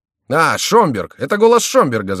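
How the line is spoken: Group shouting. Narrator (Russian): закричали миньоны

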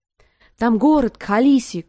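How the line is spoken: Group shouting. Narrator (Russian): кричали они

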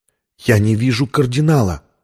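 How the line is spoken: Whisper. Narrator (Russian): прошептала Виктория

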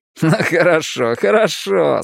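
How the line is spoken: Laughing exclamation. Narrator (Russian): смеясь воскликнул Ричи

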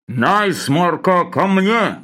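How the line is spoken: Low muffled boom. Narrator (Russian): Глухо прогудел Лавр Федотович

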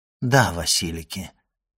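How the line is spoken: Calm. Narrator (Russian): спокойно ответил Селим

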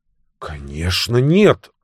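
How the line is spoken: Hurried. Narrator (Russian): торопливо сказал Тони

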